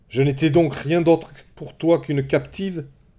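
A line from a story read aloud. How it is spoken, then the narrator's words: Shouted. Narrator (French): cria-t-elle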